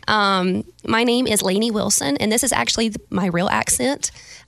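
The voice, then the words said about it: Attempted Valley girl voice. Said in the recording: “I can do a Valley girl. ... That almost isn't even Valley girl. It's almost just Iowa. Normal, no accent.”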